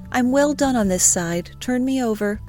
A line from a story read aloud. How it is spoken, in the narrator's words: Lawrence cheerfully declared